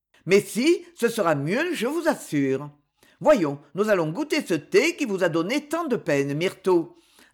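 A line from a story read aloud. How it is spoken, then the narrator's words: Cheerful. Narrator (French): ajouta-t-il gaiement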